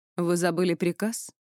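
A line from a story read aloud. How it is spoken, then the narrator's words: Cold. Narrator (Russian): холодно уточнила Сивилла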